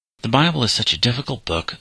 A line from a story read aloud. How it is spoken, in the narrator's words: sighed Bob